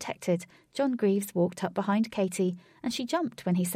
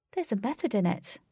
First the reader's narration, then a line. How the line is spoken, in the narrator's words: Katie said, composing herself quickly